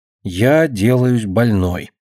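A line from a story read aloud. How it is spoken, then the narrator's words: Quiet repetition. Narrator (Russian): тихонько повторяя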